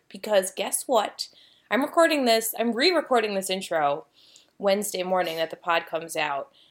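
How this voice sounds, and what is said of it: Slightly scratchy voice. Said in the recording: “my voice sounds a little scratchy”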